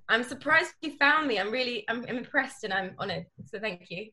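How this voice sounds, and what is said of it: Northwest London accent. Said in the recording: “I'm from Northwest London. ... Hence the accent.”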